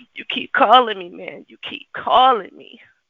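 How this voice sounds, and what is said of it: Performed character voice. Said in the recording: “in my pookie voice”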